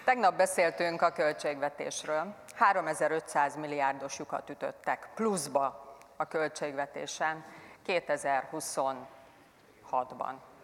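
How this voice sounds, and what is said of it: Calm, measured speaking tone. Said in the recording (Hungarian): “Most elmondom nyugodt hangon is, jó?”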